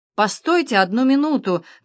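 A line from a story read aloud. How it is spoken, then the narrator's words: Passerby shouting. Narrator (Russian): кричал прохожий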